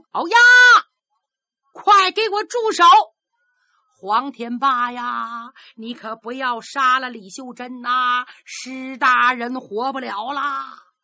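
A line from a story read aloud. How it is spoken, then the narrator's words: Loud shout. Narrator (Chinese): 他大喊一声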